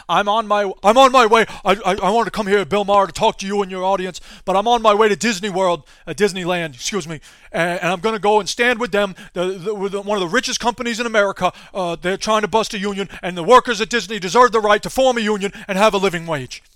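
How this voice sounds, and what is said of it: Imitates another person's voice. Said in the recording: “That was my Bernie Sanders impression.”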